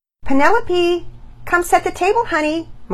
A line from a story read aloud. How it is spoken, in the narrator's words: Mama Peters yelled from the kitchen